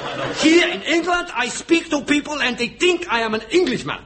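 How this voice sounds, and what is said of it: Speaking with a foreign accent. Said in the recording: “Surely there's just a trace of accent?”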